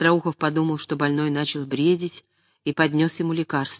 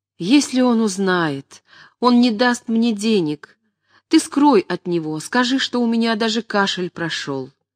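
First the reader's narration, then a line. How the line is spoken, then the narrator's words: Trembling, frightened, exhausted plaintive moan. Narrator (Russian): весь дрожа, с испугом спросил Мечиславский, в изнеможении он жалобно простонал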